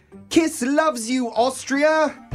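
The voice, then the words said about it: Put-on British accent. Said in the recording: “I did a British accent.”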